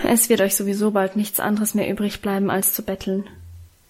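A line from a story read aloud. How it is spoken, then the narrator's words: Murmured. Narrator (German): murmelte er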